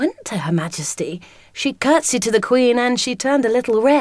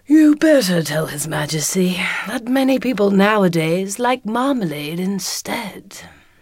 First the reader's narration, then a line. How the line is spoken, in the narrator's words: The alderney said sleepily